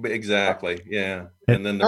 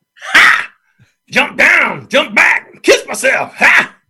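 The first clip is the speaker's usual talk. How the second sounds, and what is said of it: Screeching singer impression. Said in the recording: “James Brown impersonation ... in that early screeching voice”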